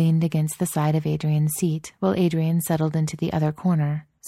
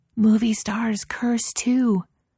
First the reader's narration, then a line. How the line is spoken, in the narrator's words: she stage whispered